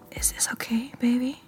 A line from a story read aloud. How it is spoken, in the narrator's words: She asked, her voice barely a breathy whisper